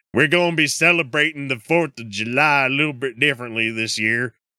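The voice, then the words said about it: Put-on Alabama accent. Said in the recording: “the Alabama accent ... my fucking voice impressions”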